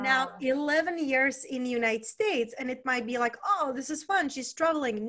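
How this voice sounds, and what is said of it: Czech accent. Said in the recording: “where is her accent from? So originally I was raised and born in Czech Republic.”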